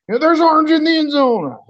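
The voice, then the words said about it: Imitates another person's voice. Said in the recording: “That was a pretty good impression.”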